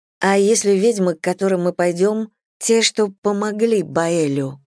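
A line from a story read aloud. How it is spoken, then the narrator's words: Plain. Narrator (Russian): спросила я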